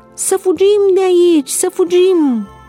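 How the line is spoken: Many voices shouting. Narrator (Romanian): mulțimi de glasuri erau auzite strigând

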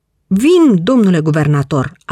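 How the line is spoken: Shouting. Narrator (Romanian): a strigat el

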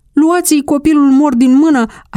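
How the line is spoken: Neighbor shouting. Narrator (Romanian): a strigat unul dintre vecini

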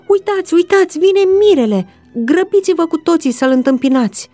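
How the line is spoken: Shouted. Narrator (Romanian): cineva a strigat

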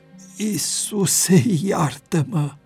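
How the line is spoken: Groaning. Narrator (Romanian): am gemut

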